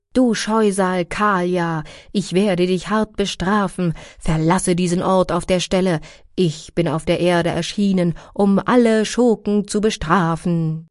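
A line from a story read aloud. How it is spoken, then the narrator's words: Cowherd girl calling out. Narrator (German): eine andere Gopi … rief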